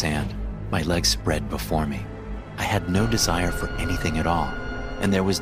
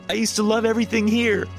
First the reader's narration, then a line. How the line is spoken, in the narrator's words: I screamed